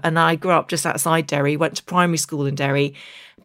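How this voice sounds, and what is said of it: English accent. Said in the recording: “you can hear I speak with an English accent”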